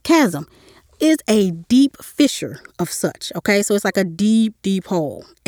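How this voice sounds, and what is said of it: Slight country accent. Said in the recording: “this slightly country accent”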